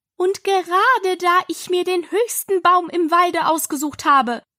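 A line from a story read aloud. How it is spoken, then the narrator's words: Raised voice continuing. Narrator (German): fuhr die Taube mit erhobener Stimme fort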